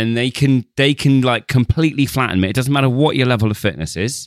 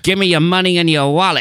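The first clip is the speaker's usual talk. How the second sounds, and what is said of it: 1930s gangster accent. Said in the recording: “I'll do like a 1930s gangster accent.”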